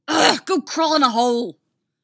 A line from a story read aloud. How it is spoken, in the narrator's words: Artemis shouts